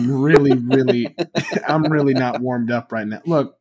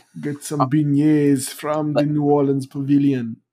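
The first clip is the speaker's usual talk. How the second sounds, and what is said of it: Bad put-on New Orleans accent. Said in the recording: “That was a really bad New Orleans accent... That was horrible. That was the worst accent you've ever done.”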